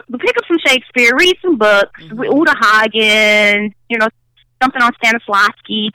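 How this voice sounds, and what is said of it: Chicago accent. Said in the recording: “my Chicago accent”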